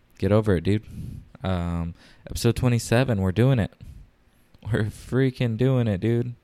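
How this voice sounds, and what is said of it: Whispering. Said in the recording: “I am whispering ... that's why I sound like this.”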